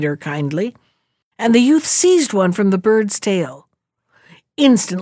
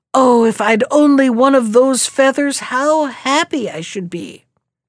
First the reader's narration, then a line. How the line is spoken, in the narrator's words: one forward youth called out